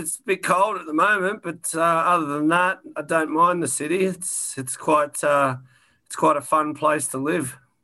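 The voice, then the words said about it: Australian accent. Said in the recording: “that's not a Toronto accent you've got there ... I'm from Sydney, Australia”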